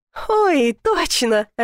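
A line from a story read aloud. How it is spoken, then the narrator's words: Laughing. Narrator (Russian): рассмеялась Лариса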